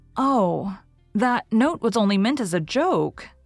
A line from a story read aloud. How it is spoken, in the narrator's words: gasped Anne